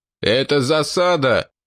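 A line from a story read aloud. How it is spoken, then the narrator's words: Shouted. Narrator (Russian): выкрикнул Русич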